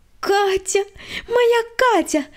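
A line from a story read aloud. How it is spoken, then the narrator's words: Joyful squeal. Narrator (Russian): радостно завизжала Света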